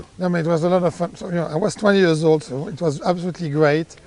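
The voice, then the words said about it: Strong accent, hard to understand. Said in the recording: “it took Shug probably 4 or 5 months to understand me with my accent”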